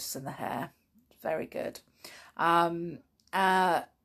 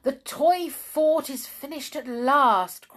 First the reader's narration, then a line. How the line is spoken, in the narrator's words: cried Mr